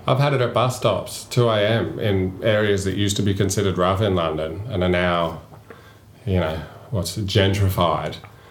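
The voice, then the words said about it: Australian accent. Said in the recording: “as soon as I came back with an Australian accent”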